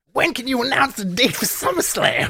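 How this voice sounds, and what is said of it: Put-on new character voice. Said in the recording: “give him a voice?... Yeah, give him a voice. Give him a new voice... Oh, a new voice... A new one. Oh, one boy. That we haven't used.”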